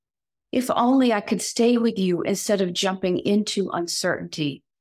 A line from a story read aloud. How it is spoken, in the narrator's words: Snowflake cried out